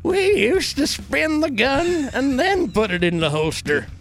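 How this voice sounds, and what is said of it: Drunk cowboy character voice. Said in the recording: “Actually not a bad cowboy impression. ... That's drunk cowboy voice.”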